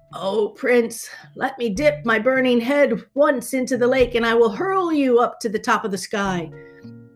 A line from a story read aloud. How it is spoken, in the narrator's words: the dragon gasped